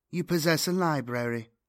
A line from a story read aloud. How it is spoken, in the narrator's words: she said flatly